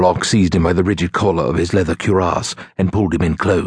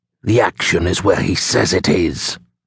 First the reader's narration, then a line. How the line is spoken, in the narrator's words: the archer growled